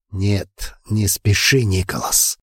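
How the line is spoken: Hoarse mutter. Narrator (Russian): хрипло пробормотал я

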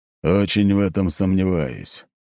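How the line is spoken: Grumbling. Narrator (Russian): проворчал Ротай

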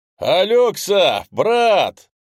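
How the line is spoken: Shouted in one breath. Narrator (Russian): Стефан ... на одном дыхании выкрикнул

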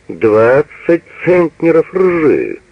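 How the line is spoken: Loud laughter. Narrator (Russian): Газа громко расхохотался

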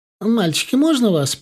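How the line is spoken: Squeaky voice. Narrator (Russian): пискнула она

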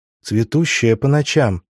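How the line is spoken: Irritated raised voice, fish. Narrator (Russian): раздраженно повысила голос рыба

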